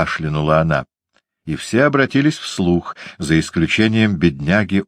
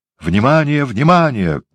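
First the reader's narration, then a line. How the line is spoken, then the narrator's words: Shouting. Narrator (Russian): закричал бенгальский огонь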